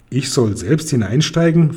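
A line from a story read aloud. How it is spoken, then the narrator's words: Plain question. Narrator (German): fragt Kokosnuss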